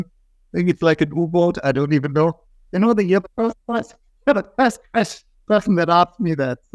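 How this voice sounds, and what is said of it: German accent. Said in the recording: “as you might have gathered from my accent, I'm German ... blame it on my accent”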